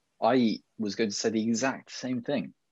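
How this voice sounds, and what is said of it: Exaggerated parody regional English accent. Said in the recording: “In that same northern accent ... I nearly went a bit Brummy ... It was kind of like a parody Somerset accent”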